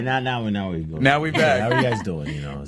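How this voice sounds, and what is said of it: Deep, sexy put-on voice. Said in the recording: “I'm giving you my sexy voice ... Keep that voice ... a deep voice”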